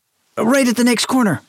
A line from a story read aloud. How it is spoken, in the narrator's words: hollered back